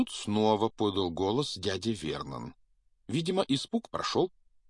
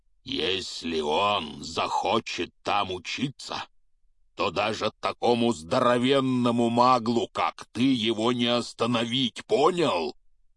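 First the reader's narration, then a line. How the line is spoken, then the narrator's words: Growled. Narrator (Russian): прорычал Хагрид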